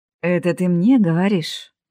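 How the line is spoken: Chuckling. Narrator (Russian): хохотнул Руслан

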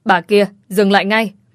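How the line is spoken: Commanding shout, mother-in-law. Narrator (Vietnamese): Tiếng quát đầy uy lực của mẹ chồng

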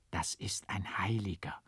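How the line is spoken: Awed whispering. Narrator (German): Sie betrachteten mich mit ehrfurchtsvoller Scheu, und ich hörte es sogar unter ihnen flüstern

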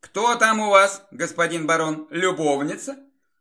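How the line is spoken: Cheerful. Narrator (Russian): весело произнесла Вероника

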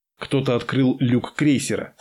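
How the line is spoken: Plain. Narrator (Russian): сказал тактик

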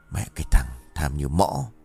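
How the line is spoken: Grumbling mutter. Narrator (Vietnamese): Kiên vẫn còn lầm bầm

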